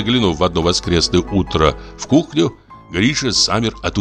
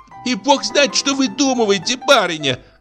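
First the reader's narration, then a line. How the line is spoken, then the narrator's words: Shrill squeal. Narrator (Russian): взвизгнула кухарка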